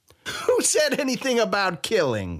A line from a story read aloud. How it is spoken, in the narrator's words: Sai laughed